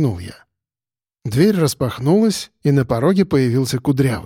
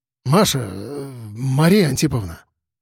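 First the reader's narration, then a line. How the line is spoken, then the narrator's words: Breathless exhale. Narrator (Russian): Выдохнул он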